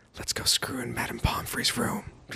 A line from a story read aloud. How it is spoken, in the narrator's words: Draco whispered